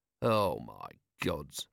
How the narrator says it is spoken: murmured Vimes

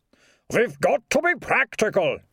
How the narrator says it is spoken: he shouted

